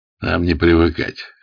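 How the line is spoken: Amused grunt. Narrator (Russian): хмыкнул Ермилов

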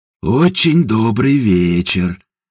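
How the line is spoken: Mocking drawl. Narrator (Russian): насмешливо протянул Степан

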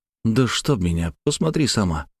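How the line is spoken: Whispering. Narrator (Russian): зашептал я

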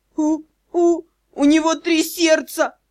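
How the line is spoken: Struggling through sobs. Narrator (Russian): всхлипывая с трудом, произнесла Эрха

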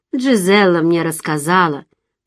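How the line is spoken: Muffled hollow voice. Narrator (Russian): произнес он глухим голосом

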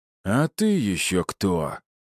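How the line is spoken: Surprised breathless exhale. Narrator (Russian): удивленно выдохнул мужик в маске

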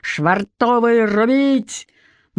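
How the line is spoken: Deafening bass shout. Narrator (Russian): Капитан крикнул оглушительным басом

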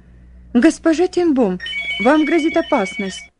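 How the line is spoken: Agitated speech. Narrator (Russian): Взволнованно говорила она

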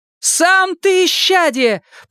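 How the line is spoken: Shout while running. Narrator (Russian): прокричала Энея уже на бегу

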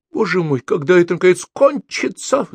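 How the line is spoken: Sudden tearful voice. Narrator (Russian): вдруг сказал он плачущим голосом

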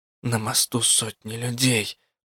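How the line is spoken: Hissing. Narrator (Russian): прошипела я

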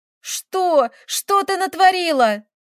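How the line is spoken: Furious shout. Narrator (Russian): закричала на нее Таисия и от ярости

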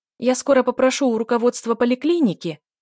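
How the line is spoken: Loud, from afar. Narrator (Russian): громко заговорила Лена еще издалека

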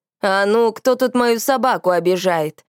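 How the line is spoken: Huge yeti roaring. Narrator (Russian): взревел здоровенный Йети

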